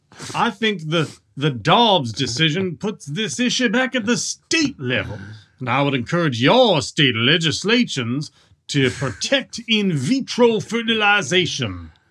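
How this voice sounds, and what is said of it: Cartoonish Foghorn Leghorn-like accent. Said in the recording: “What is this accent? ... That's Foghorn Leghorn. It's literally the Foghorn Leghorn.”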